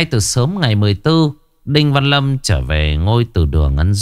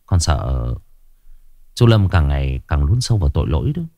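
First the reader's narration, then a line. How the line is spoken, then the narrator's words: Quiet voice. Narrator (Vietnamese): Tri phủ Đinh Văn Nhân nhỏ giọng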